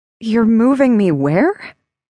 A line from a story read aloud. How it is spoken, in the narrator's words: I gasped